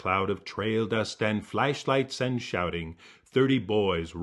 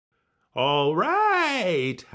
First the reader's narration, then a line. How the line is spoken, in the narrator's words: howls Coyote